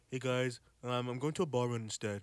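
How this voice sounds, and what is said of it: Imitates another person's voice. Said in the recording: “I got to do it in a Jeff voice.”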